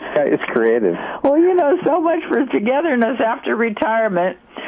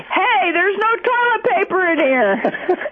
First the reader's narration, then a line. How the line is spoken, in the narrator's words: he yelled very loudly